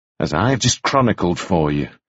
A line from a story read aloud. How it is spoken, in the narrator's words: said coldly